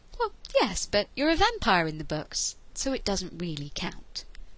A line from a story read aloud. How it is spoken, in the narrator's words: said soothingly